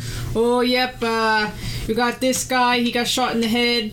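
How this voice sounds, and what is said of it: Weak attempted British accent. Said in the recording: “I can't do this accent... There's a little British in there... That sounded British”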